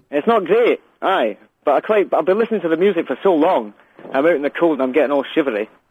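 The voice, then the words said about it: Mediocre put-on Scottish accent. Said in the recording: “how's this for a Scottish accent? ... That's not bad, is it? ... It's not brilliant.”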